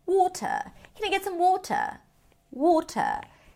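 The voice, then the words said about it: Imitated British English accent. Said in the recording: “let's not make fun of my British accent”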